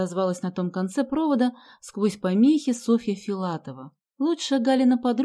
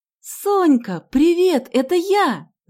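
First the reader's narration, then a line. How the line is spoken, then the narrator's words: Shouted. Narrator (Russian): закричала Галя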